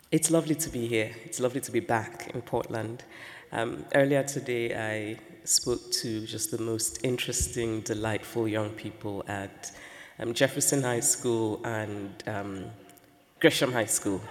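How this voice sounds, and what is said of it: Croaky voice. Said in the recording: “I have a bit of a cold, so I'm going to ask you to forgive my croaky voice.”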